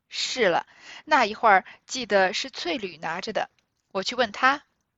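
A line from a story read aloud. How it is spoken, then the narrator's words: Laughing reply. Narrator (Chinese): 这管家伙的媳妇，应笑道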